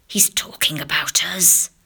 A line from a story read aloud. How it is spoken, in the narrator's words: whispered